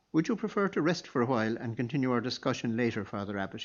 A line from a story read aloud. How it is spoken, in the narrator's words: he asked